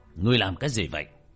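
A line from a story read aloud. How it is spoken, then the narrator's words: Loud shout. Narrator (Vietnamese): Phục Minh Tử quát lớn một tiếng với cậu bé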